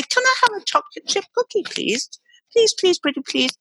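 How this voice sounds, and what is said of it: Sweet, tight, overly polite voice. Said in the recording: “I'll squeeze my little throat. I'll have a little bit of breath under my collarbone. And I'll put a little smile on my face. And I'll speak in a very nice voice.”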